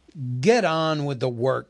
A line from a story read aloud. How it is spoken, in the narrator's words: growled the butler